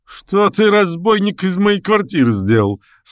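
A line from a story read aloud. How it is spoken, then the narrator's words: Feigned indignant shout. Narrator (Russian): с напускным возмущением закричал Окунев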